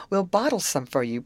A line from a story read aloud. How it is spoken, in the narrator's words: promised Amy, laughing